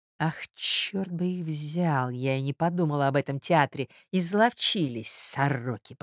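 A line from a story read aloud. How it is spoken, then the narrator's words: Furious whisper. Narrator (Russian): прошептала Марья Александровна вне себя от бешенства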